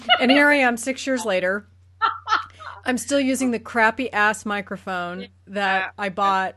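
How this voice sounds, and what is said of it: Voice off from a cold. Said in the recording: “I have a cold. So my voice is off”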